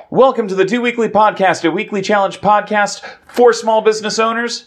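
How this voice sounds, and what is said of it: Very fast speech. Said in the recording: “we're not talking really fast”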